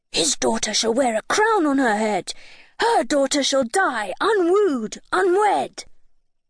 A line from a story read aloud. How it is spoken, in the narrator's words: barked, saying